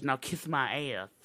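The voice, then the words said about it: Dusty Rhodes impression. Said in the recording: “my Dusty Rhodes impression.”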